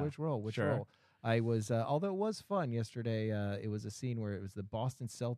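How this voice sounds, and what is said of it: Usual voice. Nothing is said of it.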